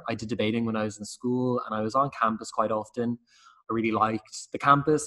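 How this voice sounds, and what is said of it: Dublin Irish accent. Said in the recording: “my accent may betray me, but I am from Dublin”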